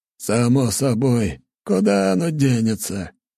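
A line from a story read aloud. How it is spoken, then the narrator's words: Hoarse rasp. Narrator (Russian): прохрипел он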